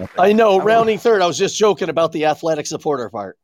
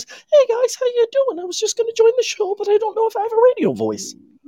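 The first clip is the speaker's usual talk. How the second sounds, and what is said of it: Teenage voice going through puberty. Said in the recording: “he actually sounds like this ... He's going through puberty.”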